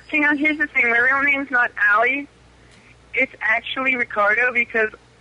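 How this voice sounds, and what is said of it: Man putting on a convincing female voice. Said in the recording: “That guy had a good girl voice.”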